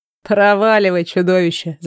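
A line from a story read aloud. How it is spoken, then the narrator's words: Laughing. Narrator (Russian): засмеялся Одуэн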